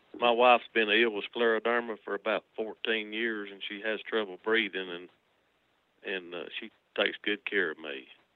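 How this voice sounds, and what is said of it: Noticeable regional accent. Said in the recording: “I love your accents... But I love your accents.”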